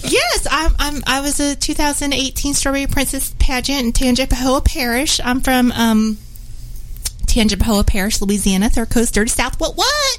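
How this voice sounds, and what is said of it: Character voice of a pageant princess. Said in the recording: “I have characters that I do ... I have Elaine Thibodeau. She's Miss Strawberry Princess Pageant.”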